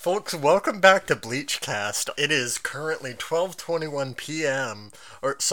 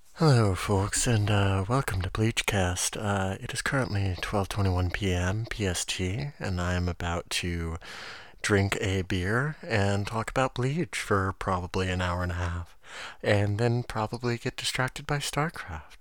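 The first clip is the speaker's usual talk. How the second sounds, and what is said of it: Soft whispery ASMR voice. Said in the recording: “my ASMR voice”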